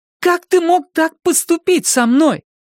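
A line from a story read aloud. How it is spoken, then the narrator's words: Exclaimed. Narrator (Russian): воскликнула Салли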